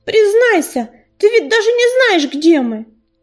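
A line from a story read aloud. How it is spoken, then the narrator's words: Sharp shout. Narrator (Russian): резко крикнула ласточка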